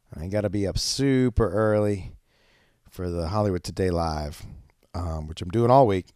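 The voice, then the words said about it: Sick-sounding voice. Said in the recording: “If you can't tell by my voice, I think I'm getting a little sick.”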